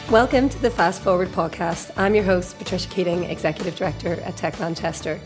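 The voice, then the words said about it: Hoarse voice from throat infection. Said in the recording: “as you can hear in my voice, a bit of a throat infection”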